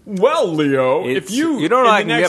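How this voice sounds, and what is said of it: Fancy put-on voice. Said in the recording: “I did a fancy voice there.”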